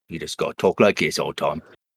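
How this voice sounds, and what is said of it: Low, hard Cockney accent. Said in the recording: “real low and hard Cockney”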